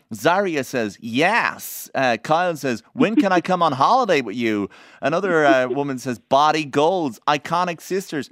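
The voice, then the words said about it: Put-on American accent. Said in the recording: “we don't actually need the American accent. ... No, I love the accent.”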